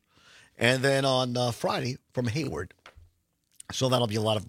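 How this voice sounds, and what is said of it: Rough, hoarse voice. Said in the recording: “my voice is a little rough”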